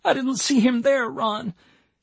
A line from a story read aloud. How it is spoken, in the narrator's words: she cried